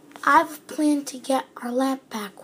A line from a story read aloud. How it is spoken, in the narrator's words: whispered Aladdin